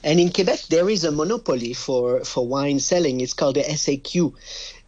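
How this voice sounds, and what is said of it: French Canadian accent. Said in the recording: “My French accent betrays that I'm from a French country, but I'm actually from Canada. I'm from Quebec.”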